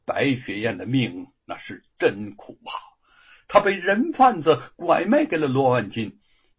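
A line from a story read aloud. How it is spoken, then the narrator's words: Sighing, earnest. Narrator (Chinese): 暗中的叹息一声，恳切的说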